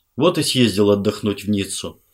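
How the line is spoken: Sighing. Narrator (Russian): вздохнул Фелман

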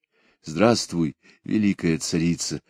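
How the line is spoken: Solemn tone. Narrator (Russian): произнес торжественным тоном

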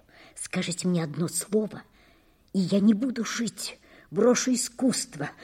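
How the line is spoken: Agitated muttering. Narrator (Russian): бормотал он в сильном волнении

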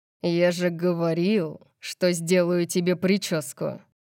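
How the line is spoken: Flat cold voice. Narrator (Russian): сказал ровным и холодным голосом

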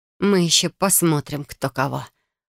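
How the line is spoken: Barely audible, through teeth. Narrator (Russian): процедила я едва слышно

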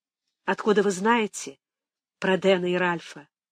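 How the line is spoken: Trembling voice. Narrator (Russian): Спросила дрогнувшим голосом

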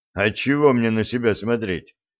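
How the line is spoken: Snort. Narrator (Russian): хмыкнул Виталик

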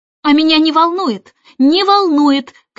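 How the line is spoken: Shouting. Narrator (Russian): кричала Джейн

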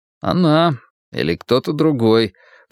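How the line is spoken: Grumbling. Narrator (Russian): проворчал я

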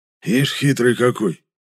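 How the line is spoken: Hoarse, disapproving. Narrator (Russian): прохрипел Гришка осуждающим голосом

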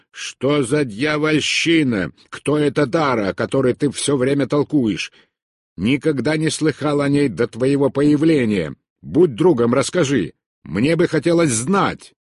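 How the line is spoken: Snarling shout. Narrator (Russian): Он оскалил зубы и крикнул

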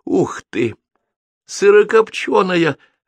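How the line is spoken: Joyful squeal. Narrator (Russian): радостно взвизгнул он

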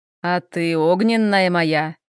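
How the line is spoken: Pleased growl. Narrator (Russian): Довольно рыкнул Хел

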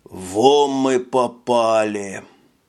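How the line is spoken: Breathless. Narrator (Russian): выдохнул Робби

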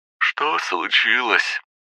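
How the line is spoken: Sleepy mumble. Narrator (Russian): Гена сонно пробормотал

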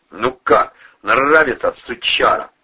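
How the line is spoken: Yelling. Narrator (Russian): орал огнемет

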